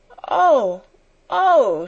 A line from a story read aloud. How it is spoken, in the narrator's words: she cried woefully